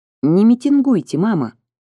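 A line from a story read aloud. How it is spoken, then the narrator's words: Calm young woman. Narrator (Russian): спокойно попросила молодая женщина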